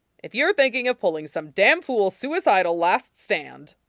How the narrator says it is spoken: Timul growled

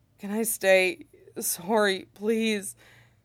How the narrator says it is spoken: Dylan hums sadly and asks

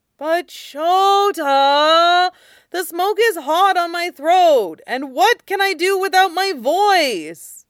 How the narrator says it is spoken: Mike whined, now hanging ragdoll on Aizawa's arm

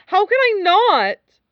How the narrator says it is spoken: Wei Wuxian cried

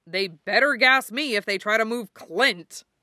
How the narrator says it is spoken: Bucky growled

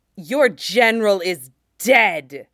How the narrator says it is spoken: He hisses at Colt

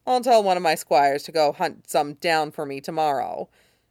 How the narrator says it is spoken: Rob said with a snort

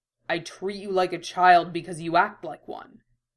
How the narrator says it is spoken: Roy growled

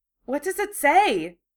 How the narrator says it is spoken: Hermione asked excitedly

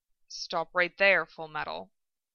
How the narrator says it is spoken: he murmured

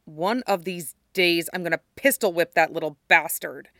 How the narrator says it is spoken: he growls

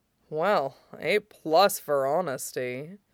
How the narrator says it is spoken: Aizawa murmured huskily

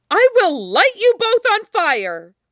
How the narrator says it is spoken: Zelda screams, not sure if she's serious

